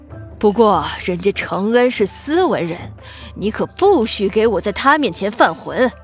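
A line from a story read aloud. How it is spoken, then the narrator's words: Laughing. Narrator (Chinese): 沈大帅笑道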